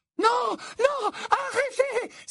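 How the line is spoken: Loud echoing cry. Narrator (French): s'écria Mimi Geignarde, l'écho de sa voix résonnante avec force sur le carrelage

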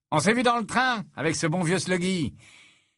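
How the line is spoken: Confident tone. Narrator (French): dit-il d'un ton assuré

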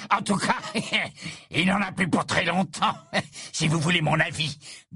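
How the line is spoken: Man speaking. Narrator (French): dit l'homme au visage de travers

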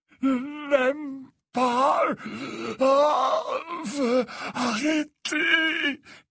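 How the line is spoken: Moaning. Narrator (French): gémit Dumbledore

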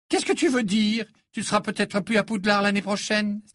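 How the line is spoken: Indignant exclamation. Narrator (French): s'exclama Pansy, d'un ton indigné

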